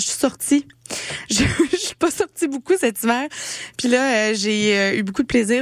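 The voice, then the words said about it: Slightly hoarse, cracked voice. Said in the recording (French): “une petite voix cassée cette semaine avec un rhume”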